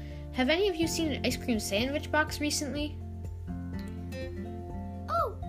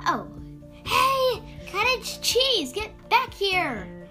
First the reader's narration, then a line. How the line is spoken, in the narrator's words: Stella yelled